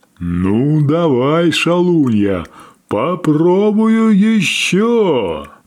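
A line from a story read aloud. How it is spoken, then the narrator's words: Deep whale bass. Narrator (Russian): пробасил кит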